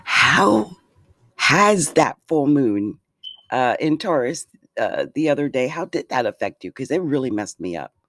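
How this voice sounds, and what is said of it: Sick, under-the-weather voice. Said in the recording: “I've been feeling a little bit under the weather. And my voice is really reflective of that.”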